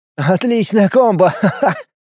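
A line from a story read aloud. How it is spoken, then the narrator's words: Laughing. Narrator (Russian): засмеялся Влад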